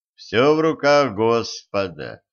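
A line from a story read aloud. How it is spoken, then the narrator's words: Grim. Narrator (Russian): мрачно сказал Денис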